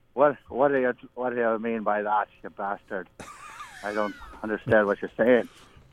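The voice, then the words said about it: Fake Scottish accent, Groundskeeper Willie. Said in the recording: “talk in a fake Scottish accent for us ... do your best Willie the groundskeeper accent”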